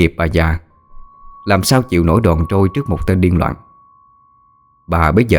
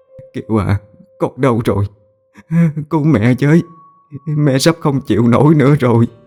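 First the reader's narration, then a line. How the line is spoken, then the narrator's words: Sobbing, calling out. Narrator (Vietnamese): Bà nức nở gọi tên con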